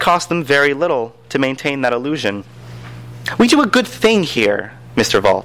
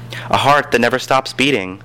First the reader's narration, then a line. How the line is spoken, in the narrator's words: she said, sighing, almost ironically